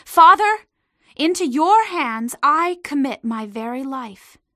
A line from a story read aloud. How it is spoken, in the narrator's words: Jesus called out in a loud voice